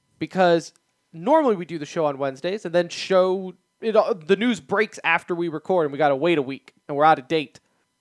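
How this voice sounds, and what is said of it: Slightly hoarse voice. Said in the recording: “my voice sounds a little hoarsed.”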